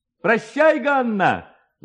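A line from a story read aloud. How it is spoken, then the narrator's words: Young man shouting. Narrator (Russian): закричал один из парубков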